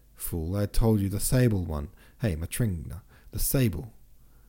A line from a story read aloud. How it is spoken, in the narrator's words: he shouted, so that his voice rang through the rooms